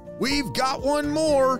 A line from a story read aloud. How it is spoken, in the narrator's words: Sunny shouted